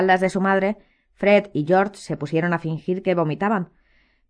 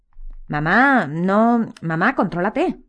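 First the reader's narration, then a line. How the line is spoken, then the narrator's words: Stammering. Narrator (Spanish): balbuceó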